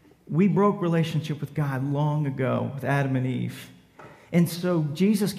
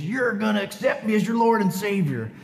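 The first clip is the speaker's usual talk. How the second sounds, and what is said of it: Bad pro-wrestler style voice. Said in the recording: “That's a terrible wrestling imitation.”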